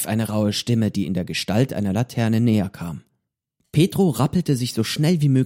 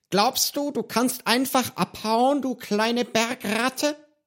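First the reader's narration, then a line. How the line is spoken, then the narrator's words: Hissing with strange accent. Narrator (German): fauchte ihn eine Stimme mit einem merkwürdigen Akzent an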